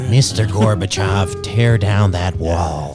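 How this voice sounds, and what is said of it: Imitates another person's voice. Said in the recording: “my Reagan impersonation”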